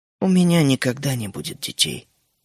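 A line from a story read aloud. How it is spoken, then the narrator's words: Quiet. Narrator (Russian): тихо сказала Джоан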